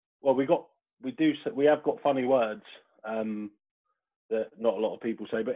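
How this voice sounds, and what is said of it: West Country and Cockney mixed accent. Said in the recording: “local yokel accent that sounds like he's from the West Country ... bit of West Country, bit of Cockney, bit of everything in there”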